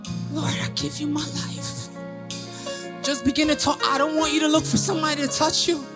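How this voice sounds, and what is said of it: Usual voice. Nothing is said of it.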